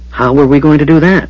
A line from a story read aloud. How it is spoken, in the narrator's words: Fizban asked eagerly